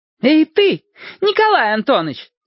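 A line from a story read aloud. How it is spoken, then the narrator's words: Shouting. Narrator (Russian): крикнула она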